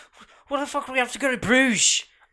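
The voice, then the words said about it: Irish accent impression. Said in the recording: “I love his accent... Is it super Irish?... It's super Irish... That's what he sounds like. Kind of.”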